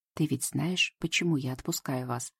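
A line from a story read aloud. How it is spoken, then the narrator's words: Whispered question. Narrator (Russian): спросила она шепотом, чтобы остальные не слышали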